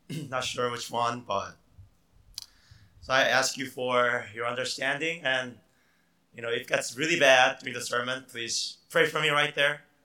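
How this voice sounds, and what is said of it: Hoarse, deep, nearly lost voice. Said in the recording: “I lost my voice. It happens to me time to time. So I don't know, I may sound like Darth Vader or Batman.”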